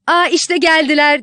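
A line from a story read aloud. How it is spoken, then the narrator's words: Shouting. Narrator (Turkish): diye bağırdı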